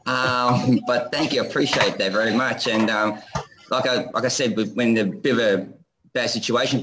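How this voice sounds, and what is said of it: Noticeable foreign accent. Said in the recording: “Your accent is awesome.”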